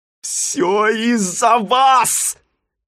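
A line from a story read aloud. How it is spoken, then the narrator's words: Shouting. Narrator (Russian): закричал Симпкинс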